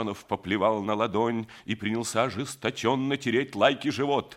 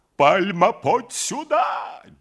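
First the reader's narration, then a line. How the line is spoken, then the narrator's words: Wild shout. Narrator (Russian): дико закричал Семенов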